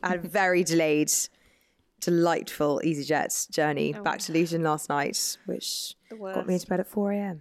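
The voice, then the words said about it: Slightly hoarse, tired voice. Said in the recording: “I feel a bit hoarse and a bit out of it this morning”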